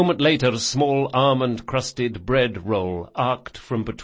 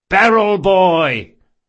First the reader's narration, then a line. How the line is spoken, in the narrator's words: the Sansa brothers hollered in unison